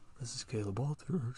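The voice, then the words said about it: Mock public-radio announcer voice. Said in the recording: “It's my NPR voice.”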